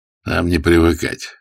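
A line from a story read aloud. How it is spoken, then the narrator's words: Grunt. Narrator (Russian): хмыкнул Ермилов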